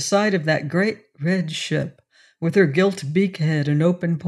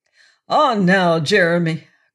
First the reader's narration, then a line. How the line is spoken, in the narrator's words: cried Blood